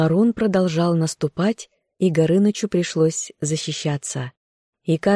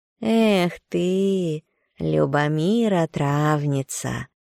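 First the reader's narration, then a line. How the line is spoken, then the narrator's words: Reproachful drawling cat. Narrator (Russian): Кот протянул с осуждением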